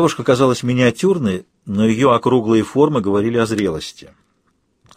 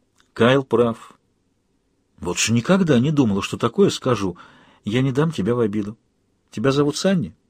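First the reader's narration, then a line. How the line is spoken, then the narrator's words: Soft. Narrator (Russian): мягко спросила я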